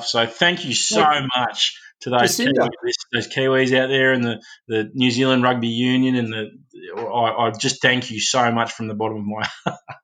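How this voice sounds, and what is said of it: Sarcastic delivery. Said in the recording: “Can you hear the sarcasm in my voice? ... I do hear the sarcasm”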